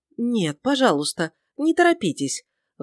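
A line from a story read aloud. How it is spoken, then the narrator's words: Pleading. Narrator (Russian): взмолился сэр Филипп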